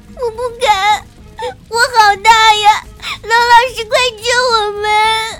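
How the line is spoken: Hoarse despairing sobbing. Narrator (Chinese): 羊角变嘶哑绝望的哭声

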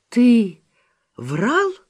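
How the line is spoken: Exclaiming. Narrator (Russian): воскликнула Зина

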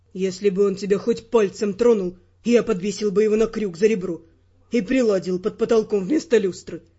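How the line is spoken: Plain. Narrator (Russian): ответил Эрл

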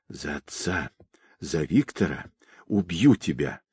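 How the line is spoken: Furious whisper. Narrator (Russian): яростно шептала Настя

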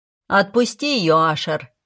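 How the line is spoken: Barking angrily. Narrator (Russian): рявкнула Финелла

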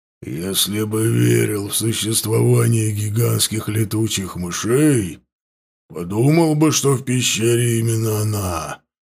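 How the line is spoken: Growled. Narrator (Russian): прорычал ворк

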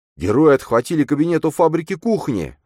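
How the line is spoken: Group of guys shouting. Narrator (Russian): закричали парни из-за стола

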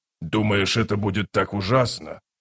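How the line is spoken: Snorting. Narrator (Russian): Рейк фыркнул

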